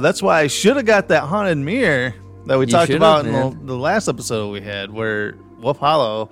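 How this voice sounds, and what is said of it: Usual voice. Nothing is said of it.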